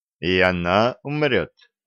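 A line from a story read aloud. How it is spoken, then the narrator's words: Plain. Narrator (Russian): спросил он Колю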